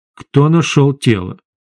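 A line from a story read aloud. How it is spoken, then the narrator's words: Very calm question. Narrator (Russian): очень спокойно спросил официант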